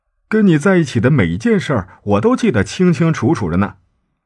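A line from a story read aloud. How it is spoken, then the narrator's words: Joking tone. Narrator (Chinese): 他开玩笑的问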